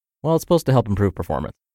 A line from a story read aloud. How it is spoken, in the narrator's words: I quickly muttered